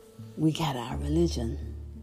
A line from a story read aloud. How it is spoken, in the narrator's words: whispered